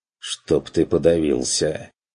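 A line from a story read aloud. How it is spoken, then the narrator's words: Barely audible mutter. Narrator (Russian): Чуть слышно пробормотал Бруно ему вслед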